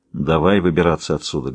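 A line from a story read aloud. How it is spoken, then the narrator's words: Plain. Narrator (Russian): говорит Ворд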